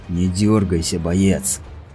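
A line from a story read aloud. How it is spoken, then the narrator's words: Threatening hiss. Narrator (Russian): прошипел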